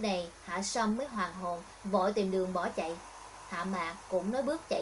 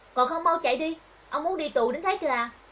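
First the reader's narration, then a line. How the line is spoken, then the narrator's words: Shout. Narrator (Vietnamese): Cô quát Hạ Sâm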